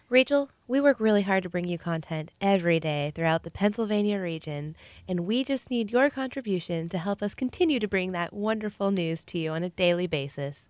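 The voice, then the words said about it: Polished radio pledge-drive voice. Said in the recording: “worked on my radio voice”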